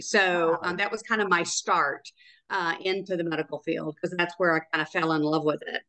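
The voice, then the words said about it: Slight Tennessee Southern accent. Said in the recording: “I detect a bit of a accent ... Tennessee, Chattanooga, Tennessee.”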